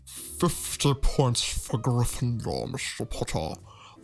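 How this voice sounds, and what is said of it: Alan Rickman impression. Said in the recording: “do an impression... Alan Rickman”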